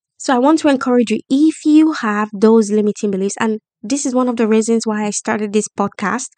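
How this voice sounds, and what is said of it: Speaks with a non-native accent. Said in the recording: “I have an accent ... They don't understand my accent”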